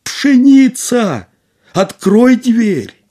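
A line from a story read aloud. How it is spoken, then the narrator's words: Shouting, frightened. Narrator (Russian): крикнул опять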